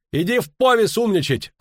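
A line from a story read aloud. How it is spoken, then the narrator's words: Angry yelling. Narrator (Russian): орал кмет на сына, критикующего прадедовское орало и подсечно-огневую систему земледелия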